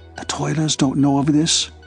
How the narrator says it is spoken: Derek whispered to Hope

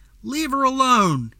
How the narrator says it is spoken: yelled

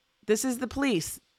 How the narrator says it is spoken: the officer shouted

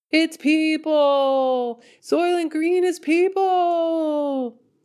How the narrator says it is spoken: Percy's dad leaned back in his chair and yelled

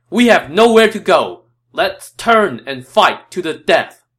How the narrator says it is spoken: Cao Cao shouted

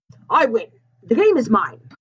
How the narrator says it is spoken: the player whose face we could not see exclaimed

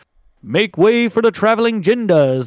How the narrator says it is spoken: the leader shouts

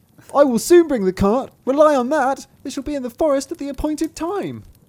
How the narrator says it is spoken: cried Thumbling

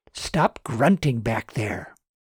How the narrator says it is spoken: Susan whispered harshly

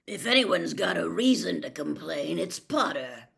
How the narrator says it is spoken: growled Moody

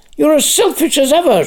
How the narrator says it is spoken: shrieked Rimmer

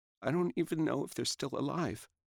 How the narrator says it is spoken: Through her sobs, she said

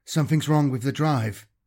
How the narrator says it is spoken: he said in a quiet, quivering voice

